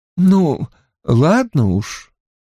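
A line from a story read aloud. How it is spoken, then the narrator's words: Forced out reluctantly. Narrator (Russian): выдавила она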